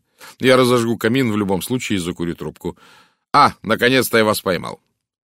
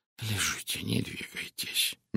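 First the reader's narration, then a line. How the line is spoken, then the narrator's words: Gentle. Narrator (Russian): мягко сказал он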